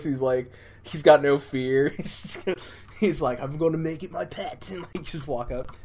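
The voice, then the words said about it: Poor put-on Australian accent. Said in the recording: “That's the worst Australian accent ever. ... you don't come to Maelstrom Radio for the accents.”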